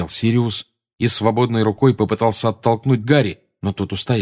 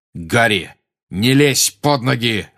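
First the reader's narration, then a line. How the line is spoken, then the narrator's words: Growling. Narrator (Russian): рычал Сириус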